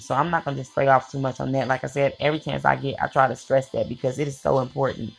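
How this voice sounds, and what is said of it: Very fast speech. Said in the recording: “I'm talking so fast and straight to the point”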